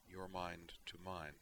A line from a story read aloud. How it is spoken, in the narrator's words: she murmured